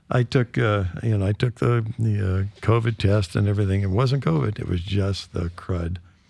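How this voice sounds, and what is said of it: Sick, congested-sounding voice. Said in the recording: “I came down with the Vashon crud ... Man, is that some nasty stuff ... as you can hear in my voice, I'm mostly getting over it.”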